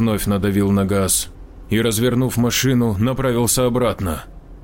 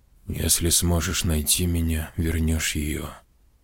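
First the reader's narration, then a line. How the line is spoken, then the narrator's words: Whisper. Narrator (Russian): прошептал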